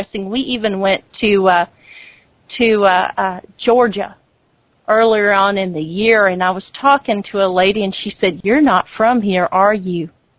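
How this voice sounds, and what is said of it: Native Texas accent. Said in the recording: “I guess you can tell by my accent, I am a native Texas girl ... you pretty much have a native Texas accent”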